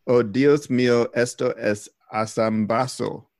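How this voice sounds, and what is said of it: Spanish with a heavy non-native accent. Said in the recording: “The accent could use a little bit of tweaking ... trying with a terrible accent”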